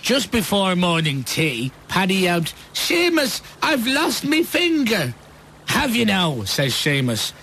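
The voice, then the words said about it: Poor attempt at Irish accent. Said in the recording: “I've been accused of having the worst Irish accent ever ... That wasn't Irish, was it? ... that's not Irish.”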